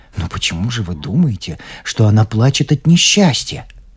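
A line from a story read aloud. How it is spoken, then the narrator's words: Astonished mutter. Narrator (Russian): Пораженный его доводами, пробормотал я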